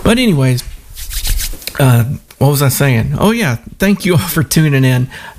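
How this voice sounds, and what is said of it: Southern US accent. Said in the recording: “I just reverted back to my old accent ... I know my southern accent comes through sometimes”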